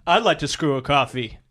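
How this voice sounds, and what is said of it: Impression of Chandler. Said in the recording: “my impression of Chandler”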